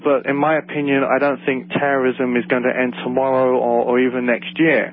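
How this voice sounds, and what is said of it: London English accent. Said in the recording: “my funny accent, I'm from London, England”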